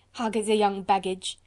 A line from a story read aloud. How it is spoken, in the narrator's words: laughed Candeille